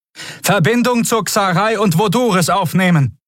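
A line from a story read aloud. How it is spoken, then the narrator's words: Shouting over noise. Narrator (German): rief Kvudal über den Lärm zu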